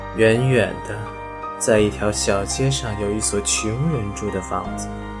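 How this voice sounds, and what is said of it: Low, soft, musical voice. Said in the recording (Chinese): “用一种低微的音乐式的声音说下去”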